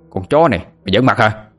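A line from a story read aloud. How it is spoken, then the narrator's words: Angry young man shouting. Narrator (Vietnamese): Một tên thanh niên lực lưỡng đứng gần nghe Tú Linh nói có thái độ với đàn anh, liền quát lên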